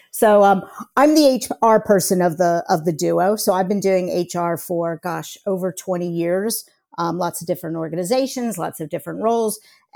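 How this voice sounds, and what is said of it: American accent. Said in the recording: “I'm the person with the American accent. But as you'll soon hear, ... and I both have American accents.”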